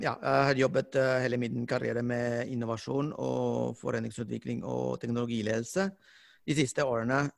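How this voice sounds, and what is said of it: Non-native accent in Norwegian. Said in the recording (Norwegian): “jeg har fortsatt aksent ... dessverre”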